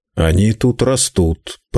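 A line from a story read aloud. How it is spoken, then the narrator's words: Embarrassed grumble. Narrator (Russian): проворчал Руго, конфузясь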